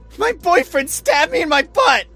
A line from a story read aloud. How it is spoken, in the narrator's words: She screamed, her voice cracking the silence like a gunshot